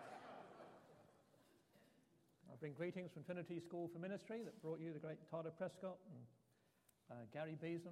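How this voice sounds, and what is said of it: Pittsburgh American accent. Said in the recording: “You may recognize from my accent, I'm not from around these parts. ... I'm from Pittsburgh, Pennsylvania.”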